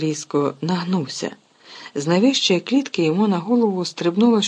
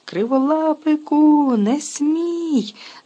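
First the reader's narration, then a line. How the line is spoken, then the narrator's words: Witch's shriek. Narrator (Ukrainian): заверещала відьма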